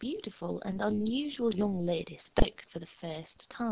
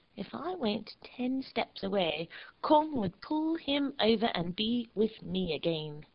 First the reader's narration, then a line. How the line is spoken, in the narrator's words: Willie said scornfully